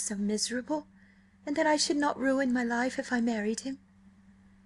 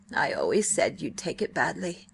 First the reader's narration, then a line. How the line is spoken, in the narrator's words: Miss Betty gloomily